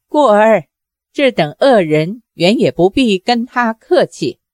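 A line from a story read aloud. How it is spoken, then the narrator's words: Sneering. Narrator (Chinese): 小龙女冷笑道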